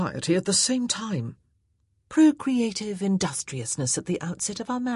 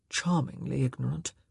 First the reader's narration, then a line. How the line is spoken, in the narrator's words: he murmured